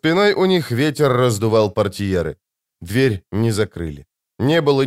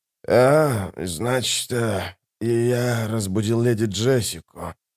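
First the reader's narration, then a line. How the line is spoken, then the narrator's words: Mutter. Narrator (Russian): пробормотал Айдахо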